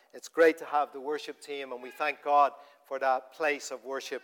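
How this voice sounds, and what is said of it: Dublin Irish accent. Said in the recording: “the Dublin accent”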